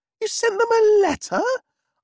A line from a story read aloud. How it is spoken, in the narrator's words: I cried, as if struck by torpedoes amidships